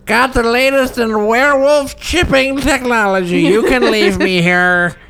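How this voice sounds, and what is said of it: Toothless old grandma voice. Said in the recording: “that's my grandma voice. ... It's good. It's good ... Sense your lack of teeth.”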